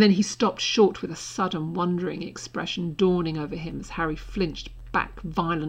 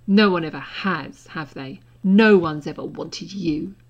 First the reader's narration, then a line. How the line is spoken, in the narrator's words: he spat